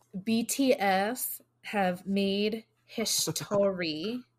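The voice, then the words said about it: Slow, deliberate delivery. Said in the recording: “saying it slowly”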